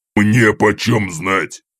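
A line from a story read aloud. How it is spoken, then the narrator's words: Imp's snarl. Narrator (Russian): огрызнулся бес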